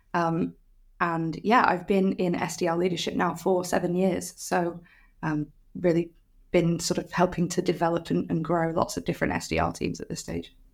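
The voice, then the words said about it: Manchester accent. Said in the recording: “I'm from Manchester, which you might be able to tell from the accent.”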